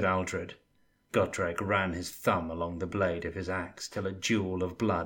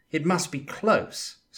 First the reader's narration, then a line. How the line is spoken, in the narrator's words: said Felix nervously